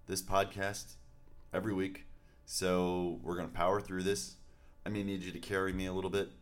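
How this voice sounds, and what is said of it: Sick, unsteady voice. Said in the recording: “I'm a little under the weather. I don't know if you can hear it in my voice, but... I think we can all hear it... My voice is kind of going in and out”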